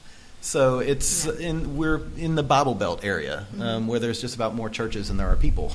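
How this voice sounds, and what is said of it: Southeastern US accent. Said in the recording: “If you can't tell from the accents, we come from the Southeast.”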